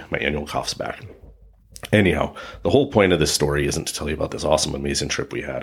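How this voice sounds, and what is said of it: Raspy voice. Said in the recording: “that's why I sound a little bit raspy.”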